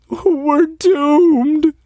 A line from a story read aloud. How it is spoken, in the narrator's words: wailed Jeff Lynn